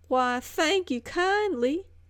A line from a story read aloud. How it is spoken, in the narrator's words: with a Scarlett O'Hara drawl